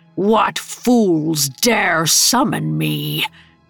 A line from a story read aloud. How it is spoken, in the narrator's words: the jinn asked, in a voice that rumbled like an earthquake